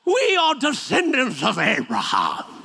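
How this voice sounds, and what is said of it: Put-on pretentious British accent. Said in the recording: “I don't know why I give them a British accent, just makes them sound pretentious.”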